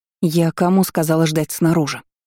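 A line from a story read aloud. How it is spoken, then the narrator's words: Hiss. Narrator (Russian): прошипела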